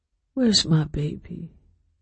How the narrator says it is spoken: Ruth muttered, half asleep

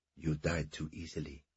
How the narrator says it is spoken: he whispered vehemently

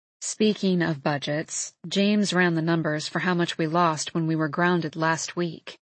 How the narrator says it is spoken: Agnes says in a low, serious tone

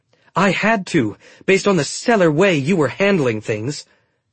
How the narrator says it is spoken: Kestra snapped

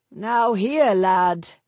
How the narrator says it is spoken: Nevin said with a chuckle

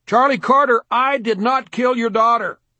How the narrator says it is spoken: yelled

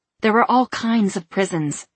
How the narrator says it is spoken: she snapped

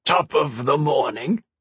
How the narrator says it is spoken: a voice croaked, descending into a choking laugh cough

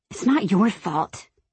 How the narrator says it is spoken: I mumble, my face burning

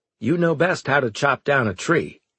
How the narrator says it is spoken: he said

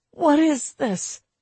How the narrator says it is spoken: I gasped after a few seconds of agony

